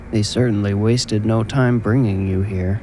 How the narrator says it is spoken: the mortician mumbled

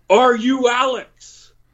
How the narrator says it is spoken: he yells

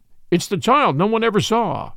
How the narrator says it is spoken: exclaimed the man

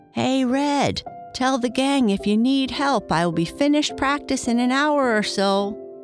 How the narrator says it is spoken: yelled Kurt

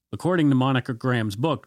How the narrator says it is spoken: Janet yelled

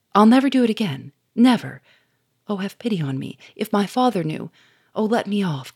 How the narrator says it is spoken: cried Bernard

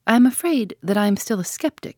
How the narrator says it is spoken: he said

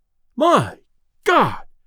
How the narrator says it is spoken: exclaimed Delaney

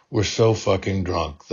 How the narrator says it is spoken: the hostess slurred into the pillow

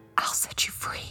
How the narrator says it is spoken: I whispered

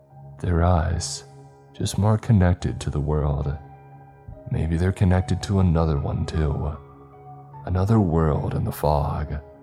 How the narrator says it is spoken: I heard Big Steve murmur

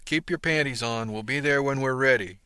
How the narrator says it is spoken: said with a laugh

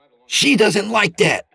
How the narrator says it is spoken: Peter snapped

